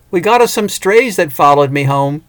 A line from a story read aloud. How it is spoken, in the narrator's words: Cindy yelled